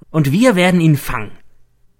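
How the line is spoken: Excited call. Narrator (German): ruft er begeistert

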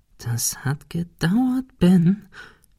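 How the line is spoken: Whispering to himself. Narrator (German): flüsterte er sich selbst zu

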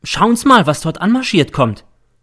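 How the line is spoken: Sudden call. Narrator (German): ruft plötzlich der M

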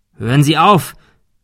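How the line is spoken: Calling out. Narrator (German): rief Thomas

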